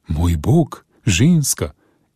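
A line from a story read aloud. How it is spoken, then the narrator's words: Exclaiming. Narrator (Slovenian): je vzkliknil Jim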